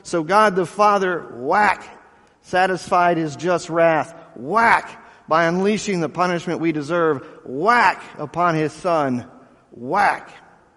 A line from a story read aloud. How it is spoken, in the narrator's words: in a dramatic conclusion, the speaker began pounding the bucket with a hammer as he yelled